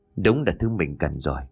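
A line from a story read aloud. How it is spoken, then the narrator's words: Eager mutter. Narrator (Vietnamese): Tuấn háo hức lắm, anh lẩm bẩm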